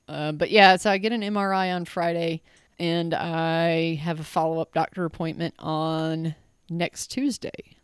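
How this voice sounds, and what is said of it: Crackly, rough voice. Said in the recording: “my voice is extra crackly”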